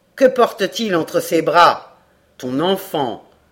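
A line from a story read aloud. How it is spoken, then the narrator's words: Grave tone. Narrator (French): répondit Duncan d'un ton grave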